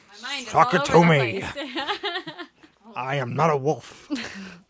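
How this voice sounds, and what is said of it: Bad imitation of another person's voice. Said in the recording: “Such a bad impression.”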